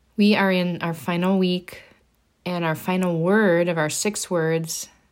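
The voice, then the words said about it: Slightly congested, altered voice. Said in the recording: “I have just a little bit of a cold left over here, so excuse my voice if it's a little bit different today.”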